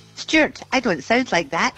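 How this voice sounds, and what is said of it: Imitates another person's voice. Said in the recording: “does a good impersonation ... It's uncanny.”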